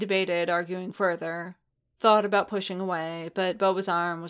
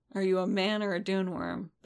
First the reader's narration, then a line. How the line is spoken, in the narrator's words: Bubba demanded sleepily